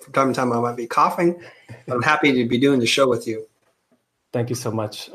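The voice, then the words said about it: Slightly raspy voice. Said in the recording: “I'm getting over a cold, so you guys might hear that my voice is a little raspy.”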